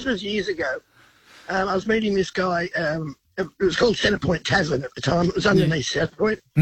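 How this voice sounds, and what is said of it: Voice affected by a cold. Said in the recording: “sorry about the voice. I've got a cold.”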